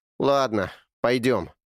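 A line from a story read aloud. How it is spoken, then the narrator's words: Sigh. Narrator (Russian): наконец вздохнул Эрни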